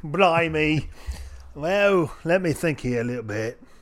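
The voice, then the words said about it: Put-on Cockney accent. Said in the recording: “answer this in a Cockney accent”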